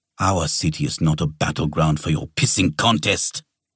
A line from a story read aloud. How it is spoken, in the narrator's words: the man snapped